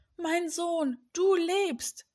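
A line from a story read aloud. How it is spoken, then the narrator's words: Moved, emotional call. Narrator (German): rief Jakob bewegt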